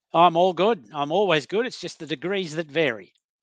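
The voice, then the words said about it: Australian accent. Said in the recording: “the accent ... from Australia, from sunny Queensland”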